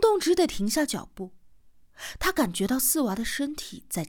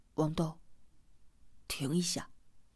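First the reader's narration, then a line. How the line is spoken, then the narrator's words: Low voice. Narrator (Chinese): 四娃 低声的说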